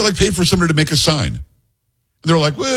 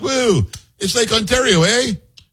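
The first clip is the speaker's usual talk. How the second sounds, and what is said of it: Imitates another person's voice, Canadian. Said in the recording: “Is that what they sound like, really? ... that's a spot-on impersonation”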